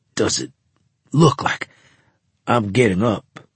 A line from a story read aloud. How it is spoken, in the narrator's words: he demanded in a wheezing voice